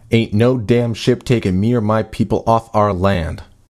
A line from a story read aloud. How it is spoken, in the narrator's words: Robert spat